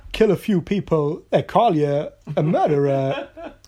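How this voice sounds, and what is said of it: Christopher Walken impression. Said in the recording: “That's a great impression.”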